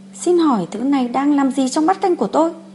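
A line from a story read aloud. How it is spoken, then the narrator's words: Angry question. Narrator (Vietnamese): Ông rất tức giận, gọi người phục vụ đến hỏi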